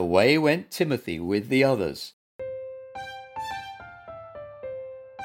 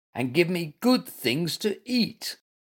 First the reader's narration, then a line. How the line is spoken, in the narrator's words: he muttered